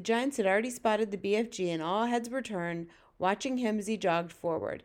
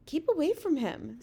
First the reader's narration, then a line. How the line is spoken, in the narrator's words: Sophie pleaded